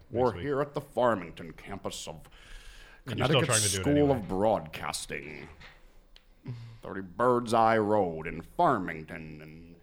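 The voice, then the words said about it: Imitates another person's voice. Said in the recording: “My Dick Robinson impression ... I got to perfect it”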